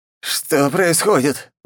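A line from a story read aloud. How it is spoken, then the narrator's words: Bewildered young man, trembling voice. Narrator (Russian): дрожащим голосом спросил обескураженный парень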